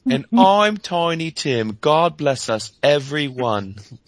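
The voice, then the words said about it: Fake British accent. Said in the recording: “faux British accent that makes you cringe”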